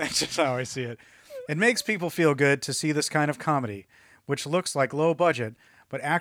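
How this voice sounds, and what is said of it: Usual voice. Nothing is said of it.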